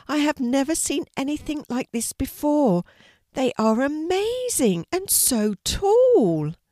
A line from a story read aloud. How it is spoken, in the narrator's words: exclaimed Louie